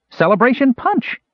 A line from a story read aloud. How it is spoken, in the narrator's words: exclaimed in recognition